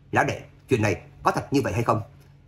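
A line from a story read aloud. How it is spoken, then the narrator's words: Furious. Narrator (Vietnamese): Nhiễm Thế Hiền vô cùng tức giận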